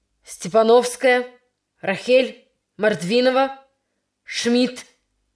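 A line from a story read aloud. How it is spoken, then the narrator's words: Angry calling out. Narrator (Russian): сердито вызывал девочек Яковлев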